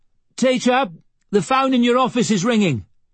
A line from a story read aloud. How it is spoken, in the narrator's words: Mika shouted